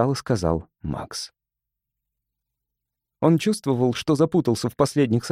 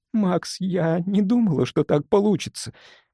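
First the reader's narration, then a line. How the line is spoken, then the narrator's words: Moaning. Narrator (Russian): простонала она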